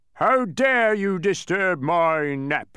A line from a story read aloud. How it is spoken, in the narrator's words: he bellowed furiously, the force of his hot breath